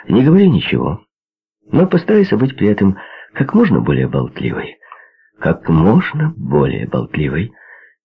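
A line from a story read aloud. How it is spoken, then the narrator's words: Brisk cheerful advice. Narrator (Russian): бодрым веселым тоном посоветовал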